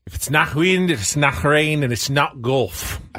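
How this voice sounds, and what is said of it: Put-on Scottish accent. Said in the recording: “Throw in my best Scottish accent ... Can you do a Scottish accent? ... It's better than I thought it would be.”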